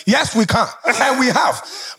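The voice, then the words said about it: Put-on African accent. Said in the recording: “With an African accent”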